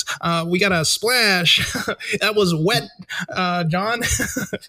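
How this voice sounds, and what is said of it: Exaggerated sports announcer voice. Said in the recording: “I gotta say it in the white announcer voice.”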